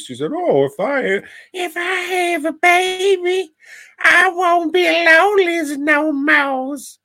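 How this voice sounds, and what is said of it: Imitates another person's voice. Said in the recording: “great impression of Anna Nicole ... not far off”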